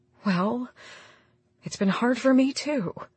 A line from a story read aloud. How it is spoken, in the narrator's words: Instead, she whispered